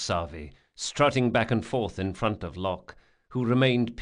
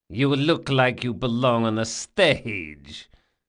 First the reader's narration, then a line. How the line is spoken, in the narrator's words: he laughed